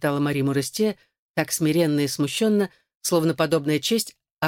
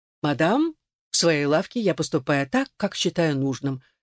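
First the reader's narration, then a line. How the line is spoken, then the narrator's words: Calm reply. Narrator (Russian): спокойно ответил мясник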